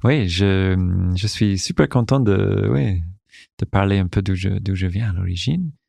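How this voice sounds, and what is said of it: Foreign accent speaking French. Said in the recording (French): “c'est sûr que vos auditeurs et auditrices ont détecté un accent”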